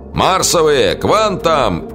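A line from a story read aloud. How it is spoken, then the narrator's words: Booming trumpet-like shout. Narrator (Russian): Старший офицер, фамилия его была Дреккен, прозвище Дракен, трубным голосом крикнул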